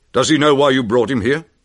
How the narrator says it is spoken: he asked

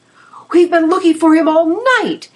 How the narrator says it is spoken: shouted

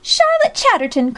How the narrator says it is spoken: cried Alexia, thoroughly annoyed

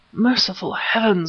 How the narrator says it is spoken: whispered Smith

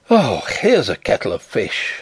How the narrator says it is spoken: I groaned

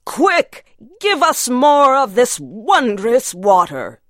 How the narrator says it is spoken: they cried

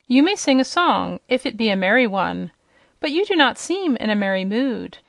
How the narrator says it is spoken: she answered, shaking with laughter

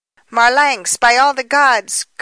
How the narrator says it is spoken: cried Baldos in despair

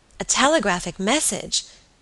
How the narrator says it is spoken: she cried

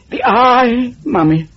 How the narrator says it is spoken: begged Nigel

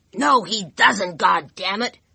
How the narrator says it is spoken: McGraw yelled

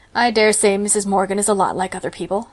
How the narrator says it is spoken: said Marilla dryly, although she did feel a trifle excited herself

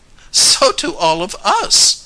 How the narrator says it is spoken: laughed Grace

